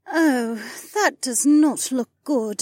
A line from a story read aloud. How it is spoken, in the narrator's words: Janel groaned